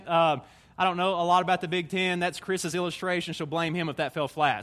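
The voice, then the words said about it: Southern Tennessee accent. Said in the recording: “I'm an SEC football guy. I'm a Tennessee man. You can tell by my accent.”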